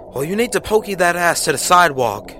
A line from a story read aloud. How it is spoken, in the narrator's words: I yelled back